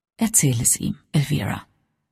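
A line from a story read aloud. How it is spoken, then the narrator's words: Quiet. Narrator (German): sagte leise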